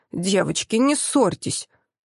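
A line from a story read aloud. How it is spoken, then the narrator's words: Grimacing request. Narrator (Russian): скривившись, попросил он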